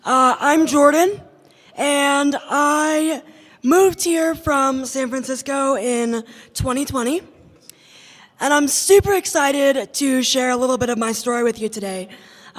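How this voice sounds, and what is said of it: Raspy voice. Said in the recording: “my big-mouthed, raspy voice self”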